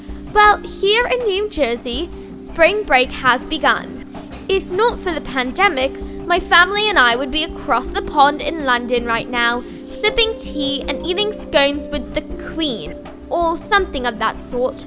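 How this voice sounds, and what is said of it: Put-on British accent. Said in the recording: “you're probably wondering why I'm speaking in a British accent”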